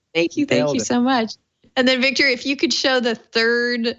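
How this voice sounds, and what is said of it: Usual voice. Nothing is said of it.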